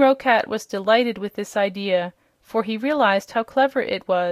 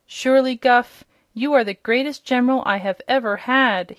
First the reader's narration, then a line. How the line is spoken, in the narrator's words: he exclaimed, his eyes sparkling with joy